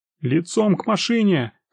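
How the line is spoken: Young man shouting. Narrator (Russian): кричал один из молоденьких милиционеров

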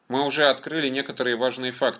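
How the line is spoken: Plain. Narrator (Russian): сказал Роб

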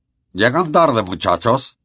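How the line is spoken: Reproachful tone. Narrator (Spanish): dijo en tono de censura el profesor Flitwick

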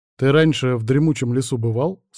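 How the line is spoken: Plain. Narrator (Russian): спросил Вильд

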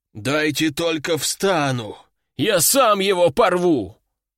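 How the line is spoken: Hoarse, just recovering. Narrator (Russian): прохрипел пришедший в себя аристократ

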